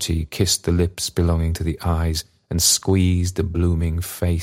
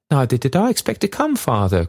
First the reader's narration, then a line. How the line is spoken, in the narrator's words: cried the girl, smiling as she spoke